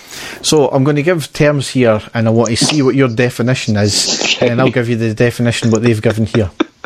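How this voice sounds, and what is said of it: Scottish accent. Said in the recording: “we've got a weird Scottish accent”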